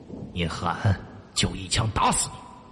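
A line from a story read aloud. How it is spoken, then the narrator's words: Low threatening curse. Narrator (Chinese): 大汉低声骂道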